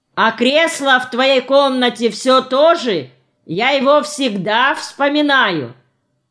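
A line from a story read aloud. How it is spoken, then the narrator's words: Shout. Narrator (Russian): Павел Григорьевич крикнул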